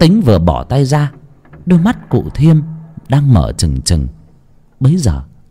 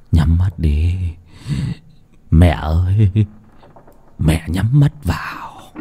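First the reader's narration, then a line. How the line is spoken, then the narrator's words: Murmured. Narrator (Vietnamese): lẩm bẩm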